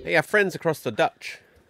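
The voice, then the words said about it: Put-on New Zealand accent. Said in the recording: “I'm guessing that's your Kiwi accent. ... Yes. So obviously it was very good”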